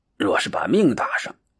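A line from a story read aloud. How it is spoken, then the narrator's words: Quiet muttering. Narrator (Chinese): 老三小声咕哝道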